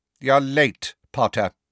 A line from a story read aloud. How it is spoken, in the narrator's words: said Snape coldly